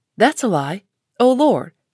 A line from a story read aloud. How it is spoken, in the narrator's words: cried the parrot